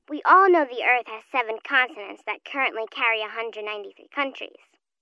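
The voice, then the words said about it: Young child's voice. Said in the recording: “You sound so young.”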